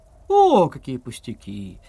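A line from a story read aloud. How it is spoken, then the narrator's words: Cheerful circus performer. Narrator (Russian): весело сказал цирковой артист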